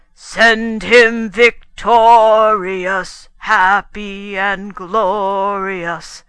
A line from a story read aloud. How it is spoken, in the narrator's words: bellowed